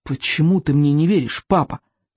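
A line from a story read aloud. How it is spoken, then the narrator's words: Angry exclamation. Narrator (Russian): сердито воскликнул он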